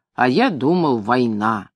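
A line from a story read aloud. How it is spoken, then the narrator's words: Angry. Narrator (Russian): сердито сказал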